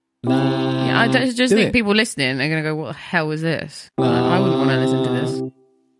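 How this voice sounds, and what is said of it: Lost voice, can't reach high notes. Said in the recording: “I was demonstrating that my voice is gone.”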